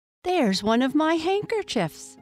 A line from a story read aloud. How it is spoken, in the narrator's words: cried Lucy